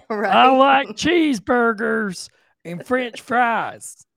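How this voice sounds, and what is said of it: Fake American accent. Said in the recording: “using a fake American accent”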